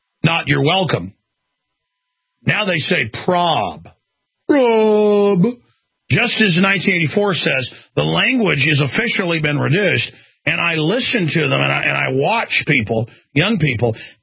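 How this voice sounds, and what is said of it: Texas Southern accent. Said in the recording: “This is a real Texas accent. This is what somebody not trying to put an accent on sounds like... a Southern gentry English accent.”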